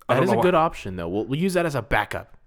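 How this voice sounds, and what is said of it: Changed voice, mock bad podcaster. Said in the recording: “Your voice has changed. ... I was doing my impression of a bad podcaster.”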